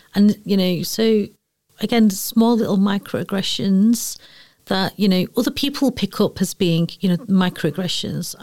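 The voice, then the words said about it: Broad Mancunian accent. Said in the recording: “your really broad ... broadest, commonest accent that I, you know, Mancunian accent that I've got”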